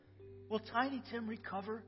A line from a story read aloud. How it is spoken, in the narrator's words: Scrooge whispered